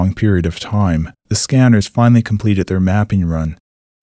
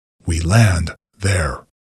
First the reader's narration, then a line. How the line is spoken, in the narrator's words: announced in a commanding tone